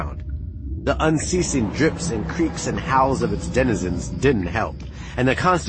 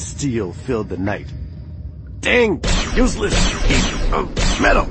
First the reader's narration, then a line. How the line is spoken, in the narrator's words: Han growled, punctuating each word with a blast